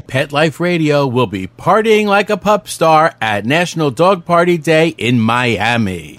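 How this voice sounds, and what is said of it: Polished radio announcer voice. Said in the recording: “He doesn't have a great radio voice ... He's got the great voice.”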